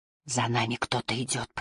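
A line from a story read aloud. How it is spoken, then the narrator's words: Whispered. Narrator (Russian): прошептала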